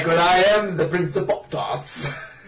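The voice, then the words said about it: Silly put-on accent. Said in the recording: “Stop making that stupid accent.”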